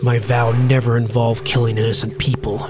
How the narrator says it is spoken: Finnegan said through gritted teeth, an intense murderous rage threatening to contradict that statement at any moment

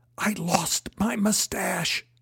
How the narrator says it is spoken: whispered

